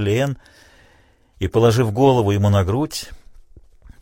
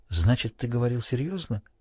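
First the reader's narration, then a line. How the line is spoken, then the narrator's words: Quiet question. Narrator (Russian): она тихо спросила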